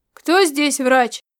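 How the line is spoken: Shout. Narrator (Russian): выкрикнул Ритар Перев

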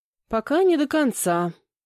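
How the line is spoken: Sister's heavy sigh. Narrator (Russian): тяжело вздохнула сестра

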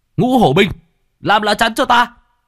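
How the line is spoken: Strained desperate shout. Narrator (Vietnamese): Bạch Hổ hai tay bị đánh cho tê dại, thậm chí đã có lúc muốn buông xuôi, liền hét

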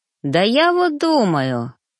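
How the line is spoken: Thoughtful hmph. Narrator (Russian): хмыкнул

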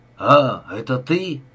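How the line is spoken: Angry. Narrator (Russian): зло проговорил он

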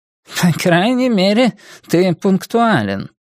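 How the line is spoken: Snorting. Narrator (Russian): хмыкнула доктор Гал

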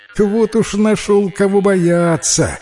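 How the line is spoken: Laughing. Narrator (Russian): рассмеялась лиса

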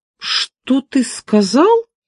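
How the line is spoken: Exclaimed. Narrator (Russian): воскликнул я

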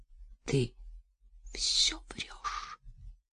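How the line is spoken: Whispered. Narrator (Russian): прошептала Настя

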